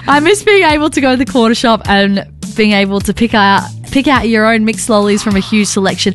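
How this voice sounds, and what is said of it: Reads aloud in a put-on accent. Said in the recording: “Do you want to read this in an accent? ... I'm changing my accent.”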